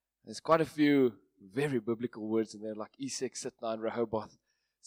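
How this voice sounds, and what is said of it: Afrikaans accent. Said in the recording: “my Afrikaans accent”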